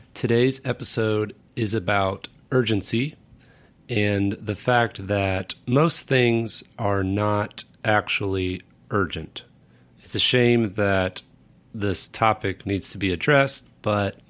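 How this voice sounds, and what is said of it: Rough, congested voice. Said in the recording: “sorry for my voice today. I'm getting over a cold”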